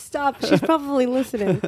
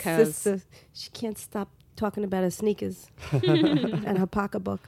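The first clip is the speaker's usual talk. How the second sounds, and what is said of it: Thick Brooklyn accent imitation. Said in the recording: “I had a very thick Brooklyn accent, like my sister and my mother ... you sound like Mary right now”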